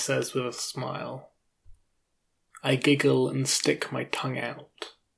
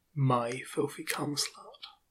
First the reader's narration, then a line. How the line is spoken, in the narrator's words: whispers to me